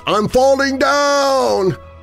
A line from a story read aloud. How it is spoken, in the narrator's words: A voice called out